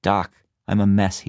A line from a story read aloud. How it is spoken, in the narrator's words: he said